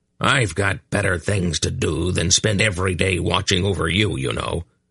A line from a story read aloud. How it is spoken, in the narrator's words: the irascible old man growled